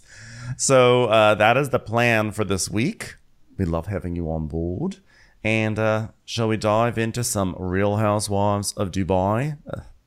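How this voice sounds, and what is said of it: Put-on Australian accent. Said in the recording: “I'm speaking in an Australian accent for no good reason”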